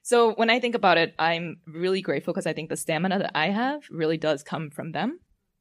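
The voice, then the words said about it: Emotional, quivering voice. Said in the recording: “I'm getting this fucking quiver. And I'm getting emotional now, so it's like double the quiver.”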